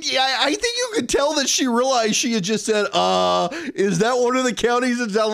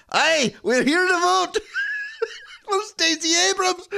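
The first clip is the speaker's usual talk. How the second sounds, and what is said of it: Put-on Scottish accent. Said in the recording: “I wonder if they all have a Scottish accent as well.”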